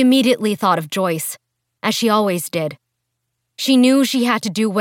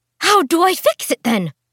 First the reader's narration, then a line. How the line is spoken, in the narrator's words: She exclaimed